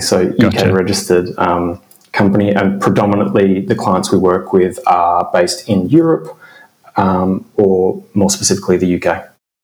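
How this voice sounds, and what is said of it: Australian accent. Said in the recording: “is it a UK company or is it an Australian company? ... despite my accent,”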